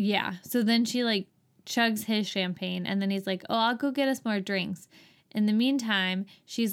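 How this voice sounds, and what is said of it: Usual voice. Nothing is said of it.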